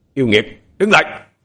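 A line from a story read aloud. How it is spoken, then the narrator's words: Loud commanding shout. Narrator (Vietnamese): Ông thầy thâm dông miệng quát lớn ra lệnh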